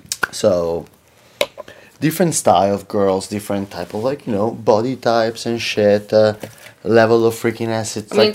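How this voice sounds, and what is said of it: Italian accent. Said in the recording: “people now can tell from my fucking accent that doesn't go away... I grew up in Europe... I'm from Italy”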